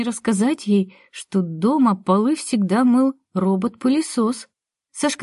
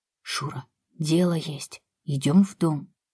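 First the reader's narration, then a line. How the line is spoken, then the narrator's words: Whisper. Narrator (Russian): сказал он почему-то шепотом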